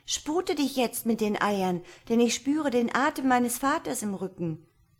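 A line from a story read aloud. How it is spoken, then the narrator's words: Calling out. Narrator (German): rief sie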